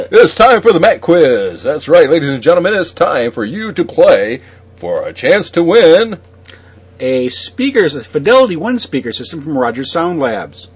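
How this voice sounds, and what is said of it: Fake radio announcer voice. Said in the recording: “That's my fake radio voice ... I, I can't do that voice again. I, th- I think I hurt myself.”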